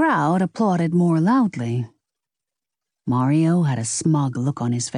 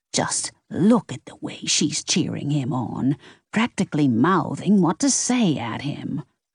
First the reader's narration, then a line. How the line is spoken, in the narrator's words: a voice behind Lexi whispered